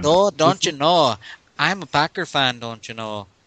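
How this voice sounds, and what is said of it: Put-on Minnesota-style accent. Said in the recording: “that's like a lot of accents mixed into one right there ... It sounds like a Minnesota accent.”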